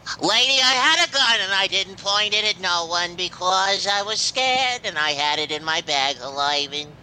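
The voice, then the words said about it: Imitates another person's voice. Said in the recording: “this is good for your impersonations ... Jerry Lewis”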